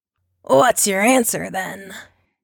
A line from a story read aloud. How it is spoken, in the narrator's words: He rasps